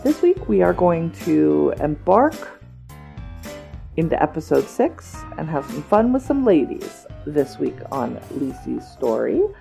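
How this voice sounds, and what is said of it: Scratchy voice. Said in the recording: “my voice is a little scratchy this week”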